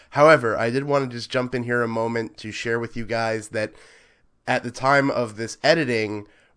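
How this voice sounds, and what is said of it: Sick, changed-sounding voice. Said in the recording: “you'll probably notice that my voice has changed in quality ... home sick nursing some kind of horrible alien ick”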